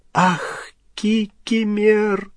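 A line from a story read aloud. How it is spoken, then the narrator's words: Tearful moan. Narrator (Russian): простонала расплакавшаяся Гермиона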